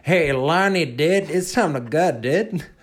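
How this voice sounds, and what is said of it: Put-on Gungan-style accent. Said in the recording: “a spot-on Gungan accent”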